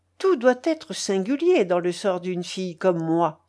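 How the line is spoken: Impatient exclamation. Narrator (French): s'écria Mathilde impatientée

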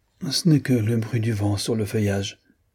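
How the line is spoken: Weak voice. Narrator (French): dit-elle d'une voix faible

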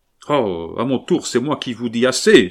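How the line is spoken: Exclaiming. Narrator (French): s'écria Camille

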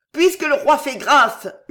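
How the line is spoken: Shouted. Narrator (French): hurla le sergent

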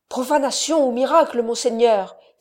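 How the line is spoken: Exclaimed. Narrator (French): s'écria Jonatas

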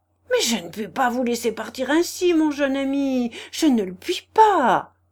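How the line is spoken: General exclaiming. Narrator (French): s'écria le général

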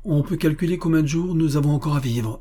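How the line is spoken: Exclaiming. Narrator (French): s'écria M

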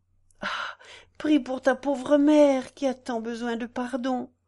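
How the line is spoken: Exclaiming. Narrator (French): s'écria Madame de la Tour Ménil

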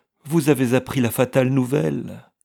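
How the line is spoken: Exclaimed. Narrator (French): s'écria-t-elle

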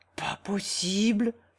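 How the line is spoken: Exclaimed. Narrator (French): s'écria Philomène

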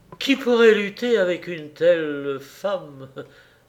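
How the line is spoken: Exclaiming. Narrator (French): s'écria-t-il

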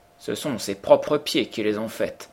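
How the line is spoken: Plain. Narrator (French): dit-il

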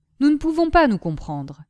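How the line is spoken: Cold. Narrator (French): dit Michu froidement

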